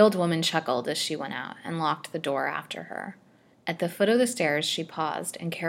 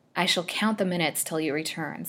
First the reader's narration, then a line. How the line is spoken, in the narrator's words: said Lily